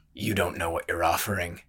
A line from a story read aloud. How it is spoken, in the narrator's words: he said quietly